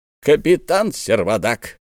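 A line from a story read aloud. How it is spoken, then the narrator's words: Stern interruption. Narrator (Russian): остановил его профессор суровым тоном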